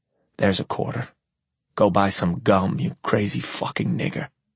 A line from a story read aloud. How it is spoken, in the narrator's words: Calmly, I whisper